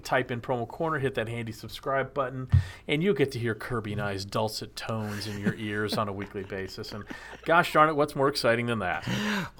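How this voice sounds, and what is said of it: Sultry, sexy voice. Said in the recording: “you used your sexy voice there. That was awesome.”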